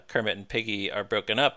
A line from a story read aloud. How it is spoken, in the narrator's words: said